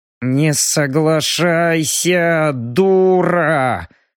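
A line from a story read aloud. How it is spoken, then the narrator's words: Hissing through teeth. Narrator (Russian): Сквозь зубы прошипел Робин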